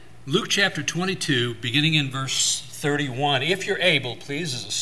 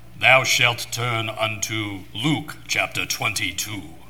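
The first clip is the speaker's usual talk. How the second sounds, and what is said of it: Deep voice, put-on English accent. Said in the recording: “give me a deeper voice and an English accent ... Like the, you know, Alexander Scorby.”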